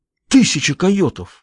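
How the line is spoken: Exclaimed. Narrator (Russian): воскликнул он

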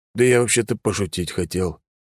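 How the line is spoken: Whispered. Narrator (Russian): прошептал мне Алекс

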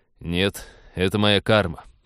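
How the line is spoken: Grumbling. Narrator (Russian): проворчал капитан

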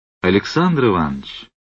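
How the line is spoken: Warm, smiling. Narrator (Russian): произнес незнакомец, ласково улыбаясь

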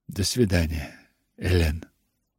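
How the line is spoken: Little lady's whisper. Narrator (Russian): прошептала моя милая маленькая госпожа

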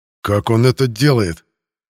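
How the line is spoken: Menacing growl. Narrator (Russian): Сузив зрачки до тонких щелочек, прорычал Геранд

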